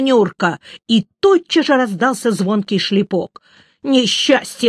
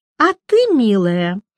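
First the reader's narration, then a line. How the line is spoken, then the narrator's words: Feigned sugary voice. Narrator (Russian): сказала Клава притворным сладеньким голосом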